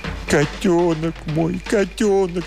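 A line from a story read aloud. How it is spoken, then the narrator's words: Sobbing. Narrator (Russian): всхлипывал он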